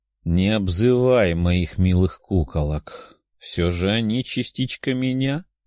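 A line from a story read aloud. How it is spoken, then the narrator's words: Tired voice. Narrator (Russian): уставшим голосом ответила Тефия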